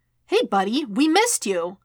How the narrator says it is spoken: Wade chirped

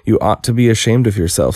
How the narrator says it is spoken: said Alice

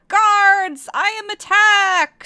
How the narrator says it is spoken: screamed Bone Cruncher

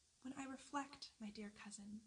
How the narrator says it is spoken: said she

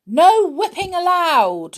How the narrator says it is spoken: shouted the pixie in charge

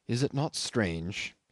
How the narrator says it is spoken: he went on in a gentle, almost yearning tone

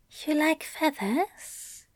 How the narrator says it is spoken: Aziraphale asked softly

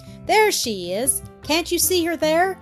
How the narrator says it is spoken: exclaimed Barbara

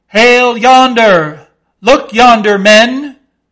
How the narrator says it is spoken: cried a foreboding voice

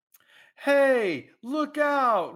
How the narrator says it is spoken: Ripcord yells suddenly

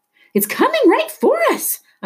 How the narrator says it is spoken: Amada screamed

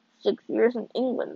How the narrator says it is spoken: I muttered

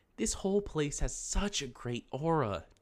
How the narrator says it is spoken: Tylee exclaimed

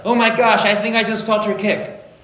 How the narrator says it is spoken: Amanda shouted

